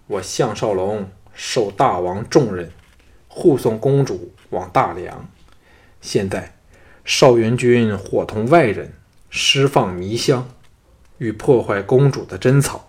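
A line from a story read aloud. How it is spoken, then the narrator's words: Deep, grave voice. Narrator (Chinese): 项少龙沉声说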